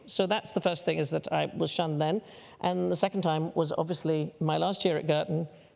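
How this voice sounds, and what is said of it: Old black-and-white film English accent. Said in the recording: “I'll just speak like that, which is why I sound like I'm trapped in a black and white film”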